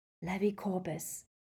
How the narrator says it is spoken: She whispered

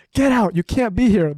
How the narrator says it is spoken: she kept screaming

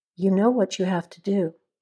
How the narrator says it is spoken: Hunter said quietly

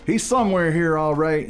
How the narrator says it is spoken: he shouted at Queen Mary

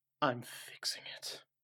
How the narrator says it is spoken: under my breath

